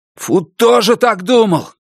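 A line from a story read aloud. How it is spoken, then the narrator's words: Shouted. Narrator (Russian): крикнул Хой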